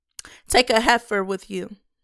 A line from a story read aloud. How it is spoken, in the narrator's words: the Lord replied